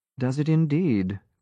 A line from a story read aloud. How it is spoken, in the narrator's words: Gray murmured